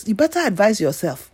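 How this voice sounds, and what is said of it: Put-on Nigerian accent. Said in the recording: “in my Nigerian voice.”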